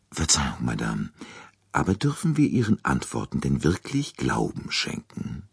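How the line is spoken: Very quiet question. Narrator (German): fragte Poirot sehr leise

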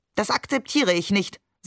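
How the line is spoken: Stern grandmother. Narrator (German): sagte Oma streng

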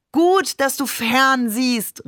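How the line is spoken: Calling out. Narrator (German): rief Babe dann

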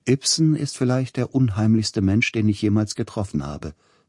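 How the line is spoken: Plain. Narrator (German): sagte

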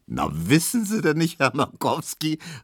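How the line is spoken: Laughing call. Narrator (German): rief Tesch lachend

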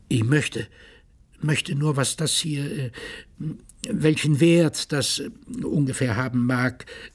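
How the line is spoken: Stammering. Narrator (German): stotterte er

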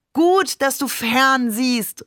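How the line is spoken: Calling out. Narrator (German): rief dann

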